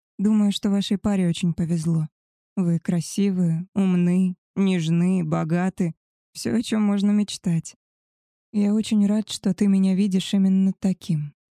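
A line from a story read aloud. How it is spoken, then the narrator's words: Soft. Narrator (Russian): мягко сказал Габриэль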